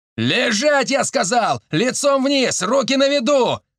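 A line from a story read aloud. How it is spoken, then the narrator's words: Furious yelling. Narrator (Russian): орал Сашка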